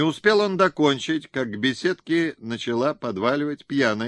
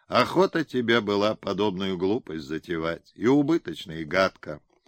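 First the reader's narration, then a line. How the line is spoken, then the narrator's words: Quiet. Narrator (Russian): сын негромко сказал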